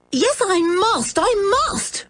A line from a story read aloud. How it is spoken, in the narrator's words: cried George